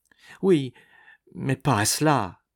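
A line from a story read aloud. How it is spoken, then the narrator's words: Naive exclamation. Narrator (French): s'exclamait ingénument Nicole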